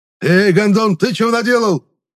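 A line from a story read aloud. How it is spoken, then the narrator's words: Angry yell. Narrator (Russian): заорал на меня водитель внедорожника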